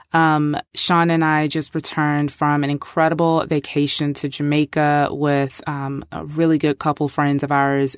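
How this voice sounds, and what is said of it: Voice sounds sick. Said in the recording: “sorry for my voice ... I am not sad. I'm just sick.”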